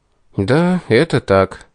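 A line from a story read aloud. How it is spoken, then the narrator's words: Repentant sigh. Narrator (Russian): покаянно вздохнул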